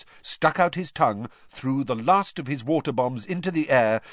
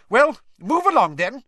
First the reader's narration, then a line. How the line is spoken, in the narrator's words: said Professor McGonagall sharply